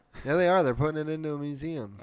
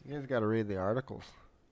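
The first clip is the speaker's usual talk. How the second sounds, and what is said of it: Irish accent. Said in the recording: “Did you say that with an Irish accent?”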